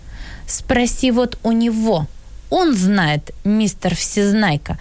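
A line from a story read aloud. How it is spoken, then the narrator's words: Angry. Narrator (Russian): сказала Мэри Поппинс, сердито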